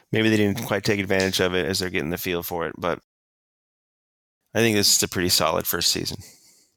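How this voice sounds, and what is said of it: Slightly off, unwell-sounding voice. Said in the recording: “I know I'm still not 100%, my voice is a little funny”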